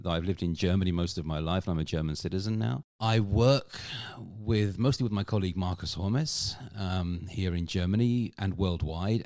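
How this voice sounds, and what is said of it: British English accent. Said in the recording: “I grew up in the UK, as my accent probably gives away.”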